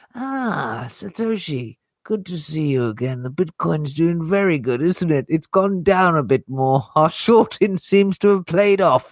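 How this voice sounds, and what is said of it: Cartoon character impression. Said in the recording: “do the Montgomery Burns voice”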